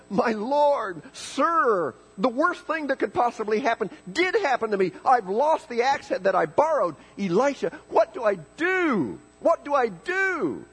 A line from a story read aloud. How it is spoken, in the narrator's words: he cried out in frustration to Elisha and said